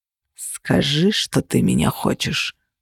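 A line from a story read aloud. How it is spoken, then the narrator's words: Growl. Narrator (Russian): зарычал он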